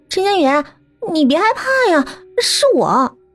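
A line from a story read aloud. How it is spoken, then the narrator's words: Pitiful voice. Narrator (Chinese): 发出了可怜兮兮的声音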